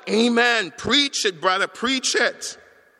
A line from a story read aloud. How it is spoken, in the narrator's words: they called out